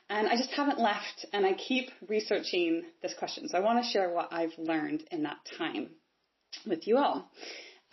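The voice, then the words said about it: Non-British English accent. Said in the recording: “you can tell probably from my accent that I'm not from the UK”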